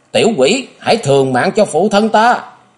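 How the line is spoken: Resentful scream. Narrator (Vietnamese): Tiếng hét uất hận vang lên

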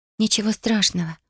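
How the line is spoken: Whisper. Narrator (Russian): прошептала она

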